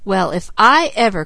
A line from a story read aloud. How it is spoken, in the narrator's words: cried Mickey